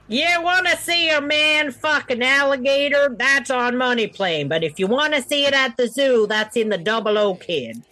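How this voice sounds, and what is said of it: Odd put-on accent. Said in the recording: “Don't ask me where that accent came from.”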